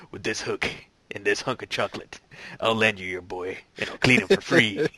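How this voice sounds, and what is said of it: Impression of Quint from Jaws. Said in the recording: “this guy looks a lot like Quint, going ... they always nail like really good impersonations on The Simpsons”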